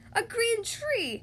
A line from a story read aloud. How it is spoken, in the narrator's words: shouted the crowd